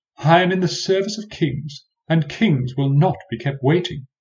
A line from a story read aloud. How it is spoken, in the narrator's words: whimpered to myself, aghast